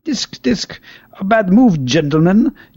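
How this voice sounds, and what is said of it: Failed attempt at English accent. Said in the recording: “I can't do the English accent.”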